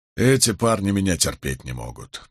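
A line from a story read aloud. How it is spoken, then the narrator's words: Muttered. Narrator (Russian): пробормотал Болейн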